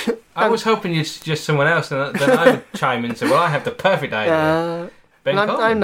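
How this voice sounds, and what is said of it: Usual voice. Nothing is said of it.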